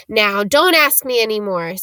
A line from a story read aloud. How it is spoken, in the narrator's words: said Hagrid gruffly